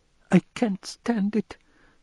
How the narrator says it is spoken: squeaked, almost voiceless

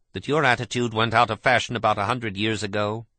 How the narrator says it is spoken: he inquired coldly

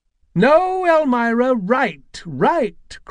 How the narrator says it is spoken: cried Mrs

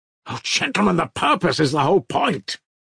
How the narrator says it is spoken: cried Mitya

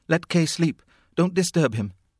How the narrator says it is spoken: Frida, still half asleep, cried

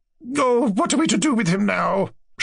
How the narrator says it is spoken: She asked anxiously

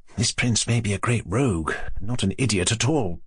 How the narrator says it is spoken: she whispered to Aglaia

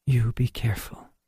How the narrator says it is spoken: whispered

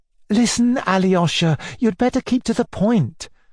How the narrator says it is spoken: Natasha cried impatiently

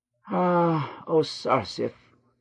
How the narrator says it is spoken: sighed the little man

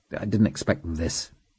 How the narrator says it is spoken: said bitterly

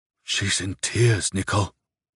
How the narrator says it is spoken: Lariosik whispered with a despairing sigh

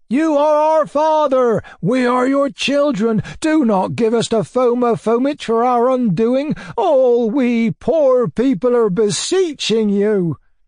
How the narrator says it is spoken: the peasants shouted once more

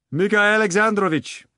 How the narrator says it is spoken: he yelled after Berlioz

